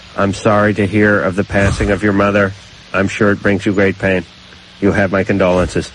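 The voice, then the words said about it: Flat robotic voice. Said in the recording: “You're like a robot. ... You sound like a robot from Lost in Space”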